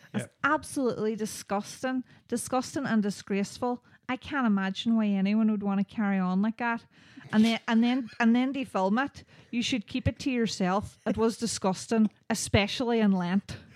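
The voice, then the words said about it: Put-on Belfast accent. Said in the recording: “I'm going to do it in a Belfast accent”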